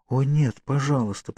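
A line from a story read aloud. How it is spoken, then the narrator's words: Whispered. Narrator (Russian): прошептала она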